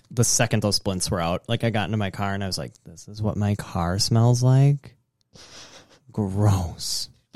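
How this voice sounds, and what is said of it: Nasal Wisconsin accent. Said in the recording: “I thought I wouldn't have a nasally Wisconsin accent anymore, but unfortunately, that was not the case.”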